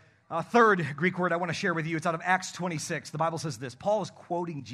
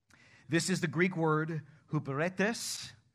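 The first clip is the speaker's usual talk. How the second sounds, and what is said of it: Put-on Spanish accent. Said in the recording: “I'm using a Spanish accent today.”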